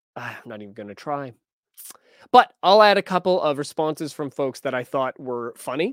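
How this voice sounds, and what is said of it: Usual voice. Nothing is said of it.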